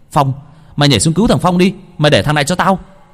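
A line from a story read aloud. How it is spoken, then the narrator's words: Shout. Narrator (Vietnamese): Hồng hét lên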